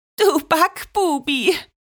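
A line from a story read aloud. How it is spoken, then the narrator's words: Breathless gasping. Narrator (German): keuchte sie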